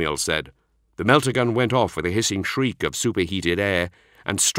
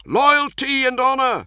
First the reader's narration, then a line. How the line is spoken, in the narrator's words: the Redemptor cried